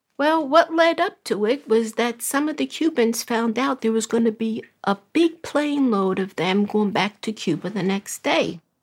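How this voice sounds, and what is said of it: Brooklyn accent. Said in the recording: “originally from Brooklyn. Maybe you can tell by her accent.”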